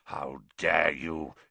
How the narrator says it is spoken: he growled, suddenly sounding like the bear-sized dog he had been

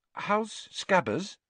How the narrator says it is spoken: Hermione asked timidly

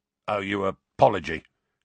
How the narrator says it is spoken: grunted a voice from the middle of the smelly cloud

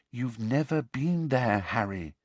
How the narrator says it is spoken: said Hermione quietly

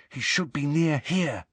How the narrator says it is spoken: whispered Harry

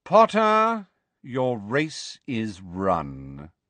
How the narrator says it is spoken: drawled Lucius Malfoy

